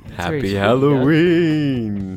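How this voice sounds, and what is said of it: Spooky voice. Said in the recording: “That's pretty good spooky voice.”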